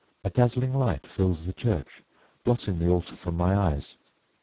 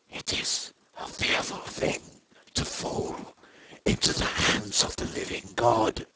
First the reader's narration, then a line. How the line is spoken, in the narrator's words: the king in yellow whispering to my soul